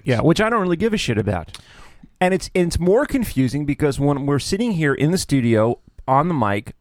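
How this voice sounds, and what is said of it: Deliberate radio announcer voice. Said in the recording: “this is the voice that I use... This is a radio voice... It's a radio voice”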